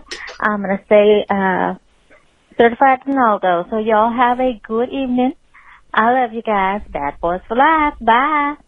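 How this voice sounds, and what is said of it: Texas accent. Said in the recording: “was that her Texas accent? ... Yeah, for sure. ... So she's gonna get an accent”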